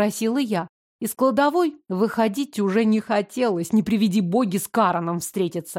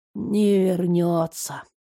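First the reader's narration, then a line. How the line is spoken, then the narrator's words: Muffled reply. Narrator (Russian): глухо ответил Римас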